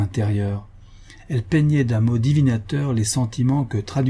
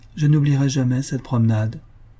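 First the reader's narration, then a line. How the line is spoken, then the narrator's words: Sad. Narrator (French): dit-elle tristement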